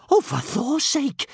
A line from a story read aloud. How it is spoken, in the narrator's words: gasped Kamikaze